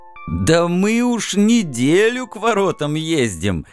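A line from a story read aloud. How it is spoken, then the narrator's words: Laughing. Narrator (Russian): рассмеялся скользящий перст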